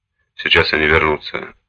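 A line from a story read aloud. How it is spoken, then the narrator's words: Sighing. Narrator (Russian): вздохнул Гуга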